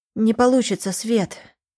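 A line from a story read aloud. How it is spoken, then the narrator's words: Sighing. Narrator (Russian): вздохнула Лиза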